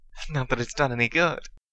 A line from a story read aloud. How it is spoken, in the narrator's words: she chuckled